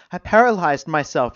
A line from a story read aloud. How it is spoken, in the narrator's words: said, her voice rising